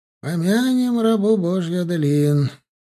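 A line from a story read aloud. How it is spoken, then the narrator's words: Sad. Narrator (Russian): печально вымолвил Альберт Карлович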